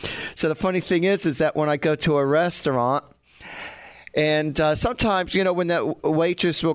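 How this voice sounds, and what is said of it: Usual voice. Nothing is said of it.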